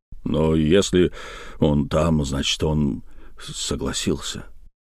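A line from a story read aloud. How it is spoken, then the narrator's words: Muttered. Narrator (Russian): пробормотал Жельдас Тригомен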